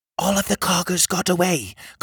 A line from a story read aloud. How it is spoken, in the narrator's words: Cogleen whispered